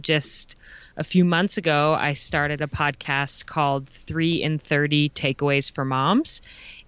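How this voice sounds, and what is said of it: Polished radio-style voice. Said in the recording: “your really good radio voice”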